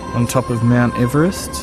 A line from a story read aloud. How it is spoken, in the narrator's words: murmured